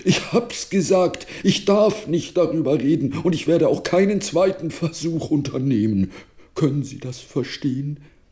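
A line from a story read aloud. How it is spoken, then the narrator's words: Strained croak. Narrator (German): krächzte er mit verzerrtem Gesicht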